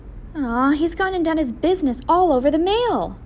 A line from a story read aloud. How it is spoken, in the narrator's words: yelled